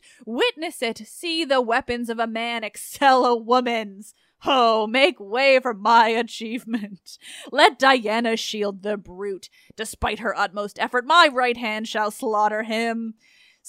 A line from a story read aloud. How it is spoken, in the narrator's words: rushing madly to his fate, exclaimed